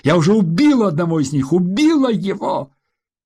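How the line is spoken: Screaming. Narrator (Russian): Она закричала

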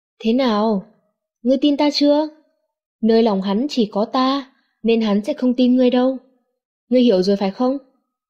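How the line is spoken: Smiling woman's voice. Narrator (Vietnamese): Cô ta mỉm cười nói

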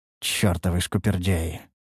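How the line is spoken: Muttered. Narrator (Russian): пробормотал я

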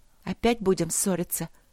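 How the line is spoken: Quiet question. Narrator (Russian): тихо спросила принцесса

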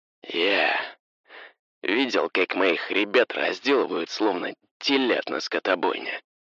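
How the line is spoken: Gloomy voice over radio. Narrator (Russian): мрачным голосом произнесла рация

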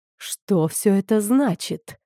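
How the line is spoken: Hiss. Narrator (Russian): прошипела Вейл

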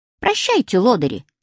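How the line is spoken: Squeaking. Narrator (Russian): пискнул Женчик

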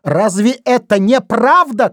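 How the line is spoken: Alarmed shout. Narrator (Russian): крикнул Вайнер, чувствуя близость опасности

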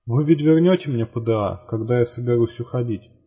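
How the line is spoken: Plain question. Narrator (Russian): спросила Норрис

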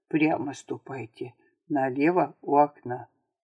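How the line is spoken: Low voice. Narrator (Russian): Лакей сказал вполголоса

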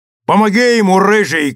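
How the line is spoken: Shouted. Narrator (Russian): крикнул капитан Мак-Эой

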